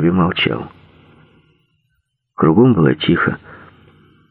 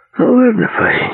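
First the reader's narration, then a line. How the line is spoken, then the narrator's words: Sighing. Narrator (Russian): вздохнул Эверетт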